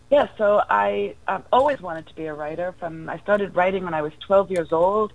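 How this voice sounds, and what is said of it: New York accent. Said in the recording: “I'm a New Yorker. Maybe you can tell from my accent.”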